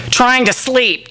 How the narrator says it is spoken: Julia snapped from under the covers

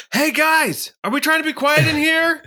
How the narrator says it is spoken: Yelling to everybody who already left

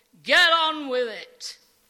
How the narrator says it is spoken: from deep within the throng, a voice roars

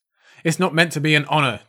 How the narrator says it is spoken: Joffrey screamed

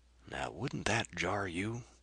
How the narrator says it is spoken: whispered Carr

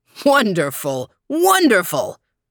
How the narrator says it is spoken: shouted everyone

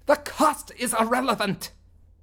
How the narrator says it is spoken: Soonblock said with a snarl

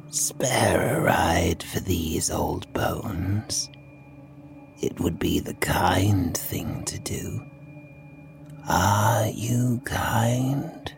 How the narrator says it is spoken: Their voice was an unpleasant rumble, like the creaking of metal

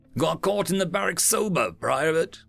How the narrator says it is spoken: Tic Tac chuckled

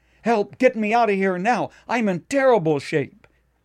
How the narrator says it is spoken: he cried out

